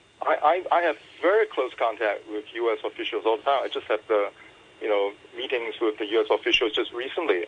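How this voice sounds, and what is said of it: American accent. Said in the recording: “You speak with a U.S. accent”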